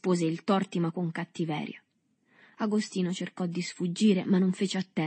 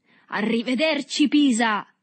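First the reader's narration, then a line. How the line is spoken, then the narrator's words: Shout. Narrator (Italian): gridò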